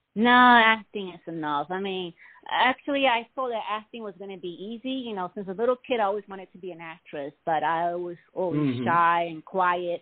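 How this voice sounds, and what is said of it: Noticeable accent, slow clear speech. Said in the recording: “I have like an accent ... people tend to have a hard time understanding what I'm saying. I have to speak very clear and slow.”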